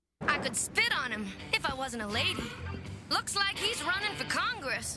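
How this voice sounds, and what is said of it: Southern American accent. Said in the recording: “her southern accent”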